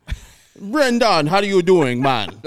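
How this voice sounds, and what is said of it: Irish accent that sounds Jamaican. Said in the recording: “my Irish one. It sounds exactly like Jamaican. ... you're doing a Jamaican accent.”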